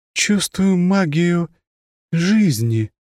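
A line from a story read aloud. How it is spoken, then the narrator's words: Uncertain young woman. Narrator (Russian): неуверенно произнесла девушка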